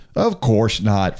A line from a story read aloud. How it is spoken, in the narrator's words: Frank said